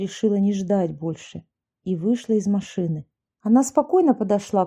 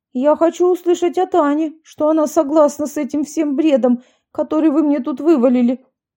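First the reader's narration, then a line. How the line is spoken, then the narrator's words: Shrill demand. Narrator (Russian): визгливо потребовал Юрий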